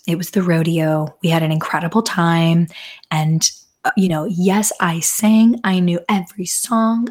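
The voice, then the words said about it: Hoarse, strained voice. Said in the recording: “lost my voice ... I began losing my voice before the concert”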